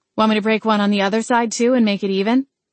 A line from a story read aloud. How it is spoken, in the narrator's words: I replied flatly